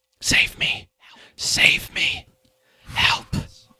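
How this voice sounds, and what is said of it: Eerie whispered pleading voice. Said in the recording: “you hear more and more voices starting to whisper into your ear. Almost sounds like they're right next to your ear ... It's like they're whispering directly right next to your ear.”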